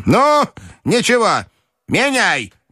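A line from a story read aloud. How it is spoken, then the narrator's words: Resolute shout. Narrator (Russian): крикнула она решительно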